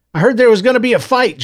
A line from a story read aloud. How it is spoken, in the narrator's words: Joseph blurted